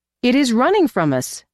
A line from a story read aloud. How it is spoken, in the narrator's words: cried Ahu